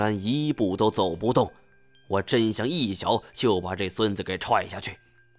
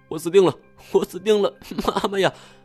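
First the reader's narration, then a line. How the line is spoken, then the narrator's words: Terrified, tearful cry. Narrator (Chinese): 林飞泉…脸都吓白了，带着哭腔喊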